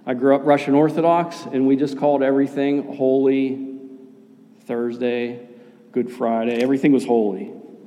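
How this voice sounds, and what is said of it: Pittsburgh accent. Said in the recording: “my Pittsburgh accent”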